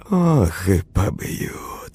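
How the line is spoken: Sighing. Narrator (Russian): вздохнул тот

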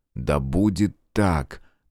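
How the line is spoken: Solemn. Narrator (Russian): торжественно проговорил он

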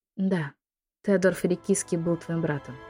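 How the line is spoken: Whisper. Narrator (Russian): прошептала она

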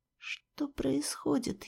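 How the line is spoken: Barely audible question. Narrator (Russian): еле слышно спросила я

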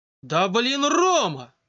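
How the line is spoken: Exclaiming. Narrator (Russian): воскликнула Катя

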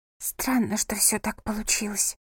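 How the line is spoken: Whisper. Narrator (Russian): прошептала она

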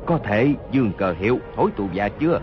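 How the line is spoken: Lowered voice. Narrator (Vietnamese): Hốt Đô Hổ hạ giọng nói

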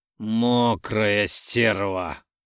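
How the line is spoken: Hoarse. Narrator (Russian): Хриплю, как простуженный джигурда

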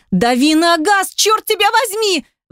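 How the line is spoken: Hysterical scream. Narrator (Russian): В истерике заорала Ники

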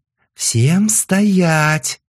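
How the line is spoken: Frantic yell. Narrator (Russian): Неистово заорала Ким

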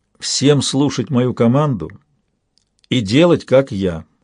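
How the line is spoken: Stern command. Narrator (Russian): распорядился он строго

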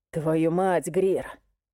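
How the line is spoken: Hoarse rasp. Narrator (Russian): прохрипел

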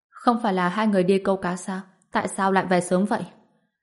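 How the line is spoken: Smiling. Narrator (Vietnamese): mỉm cười nói

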